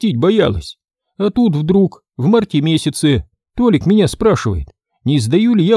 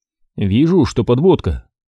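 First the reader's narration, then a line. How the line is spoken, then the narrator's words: Grumble. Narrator (Russian): проворчал я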